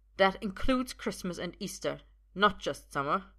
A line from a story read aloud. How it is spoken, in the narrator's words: Uther says sharply